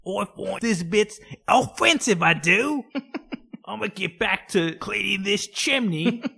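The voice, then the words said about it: Put-on British accent. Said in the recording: “Was that a ghost British person?”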